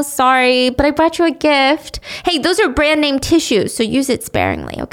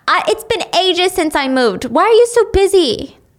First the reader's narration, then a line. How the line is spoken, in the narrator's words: Shelly meets her outside and is yelling